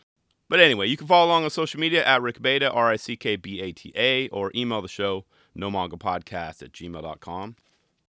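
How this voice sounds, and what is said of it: Congested, lingering-illness voice. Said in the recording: “still getting over COVID ... you can probably hear it in my voice. I still have this nose and cough thing.”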